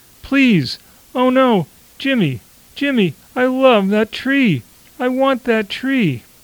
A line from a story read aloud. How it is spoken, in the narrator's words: His girlfriend, a large person is wailing